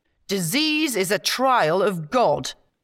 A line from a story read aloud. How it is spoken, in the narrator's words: intoned